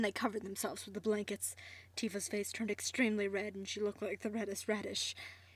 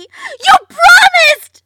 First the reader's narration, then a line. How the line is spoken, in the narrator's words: She shouted while running away